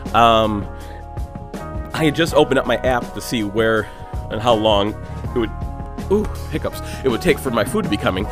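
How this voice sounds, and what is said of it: Out of breath, panting. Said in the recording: “out of breath. Because I'm out of shape”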